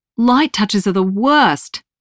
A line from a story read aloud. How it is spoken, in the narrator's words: I exclaim